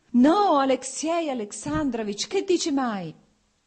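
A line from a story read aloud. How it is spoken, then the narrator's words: Anguished shout. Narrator (Italian): gridò Oblonsky e la sofferenza si espresse sul suo viso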